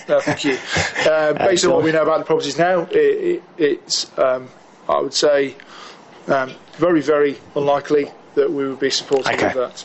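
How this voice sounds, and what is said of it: English accent. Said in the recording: “that's your English accent”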